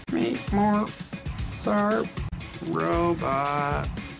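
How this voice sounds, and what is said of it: Poor imitation of robot voice. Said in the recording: “do the robot voice ... That's a terrible robot voice.”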